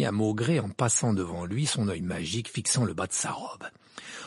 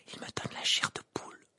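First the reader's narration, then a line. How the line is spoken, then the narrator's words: Murmuring. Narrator (French): murmura Parvati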